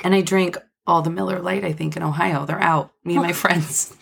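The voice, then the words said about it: Slightly raspy voice. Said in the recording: “I'm a little raspy today”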